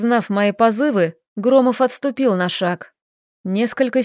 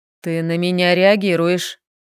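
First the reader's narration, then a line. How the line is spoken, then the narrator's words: Icy declaration. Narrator (Russian): ледяным тоном заявил Андрей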